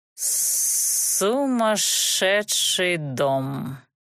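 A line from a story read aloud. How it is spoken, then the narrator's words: Emphatic pronouncement. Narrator (Russian): с чувством изрек Рычарк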